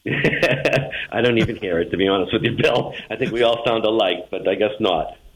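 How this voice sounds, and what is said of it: Boston accent. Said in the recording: “You think you'll ever lose that Boston accent?”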